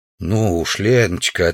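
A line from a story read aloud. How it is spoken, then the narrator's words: Soft reply. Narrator (Russian): ответил мягко Савич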